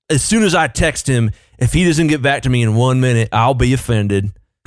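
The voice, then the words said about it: Mock southern boomer accent. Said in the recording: “Why do boomers have a southern accent? ... That's the official accent of boomers everywhere.”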